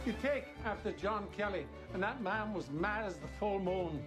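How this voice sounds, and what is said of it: Irish accent. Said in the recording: “his fucking Irish accent ... people have been talking about the accent, and it's great”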